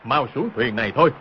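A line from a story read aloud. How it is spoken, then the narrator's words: Hurried shout. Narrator (Vietnamese): vội sấn ra quát lên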